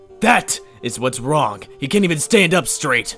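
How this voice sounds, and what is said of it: Yelling angrily. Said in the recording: “Don't yell at the poor bird now ... I'm not yelling at the bird, I'm yelling at you”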